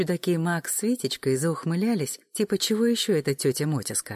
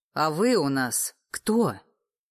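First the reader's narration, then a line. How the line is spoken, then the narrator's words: Sharp bark. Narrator (Russian): рявкнула Тамуся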